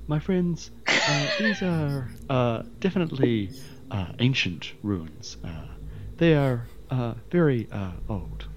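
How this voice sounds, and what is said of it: Performed character voice. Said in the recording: “my best Ho impression... That's a very good impression.”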